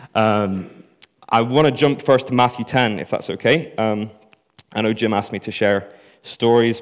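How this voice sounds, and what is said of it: Northern Irish accent. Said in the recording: “short Northern Irish guy with a confusing accent ... I am too Northern Irish”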